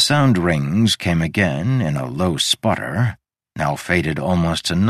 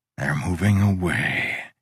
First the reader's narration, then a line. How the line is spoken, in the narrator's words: he sighed